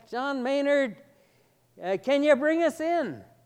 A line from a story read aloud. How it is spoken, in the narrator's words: the captain hollered back